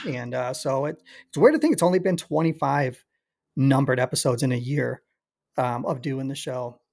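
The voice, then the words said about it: Slightly raspy voice. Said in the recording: “my voice is already a little raspy. ... I've been talking too damn much for the for the last year.”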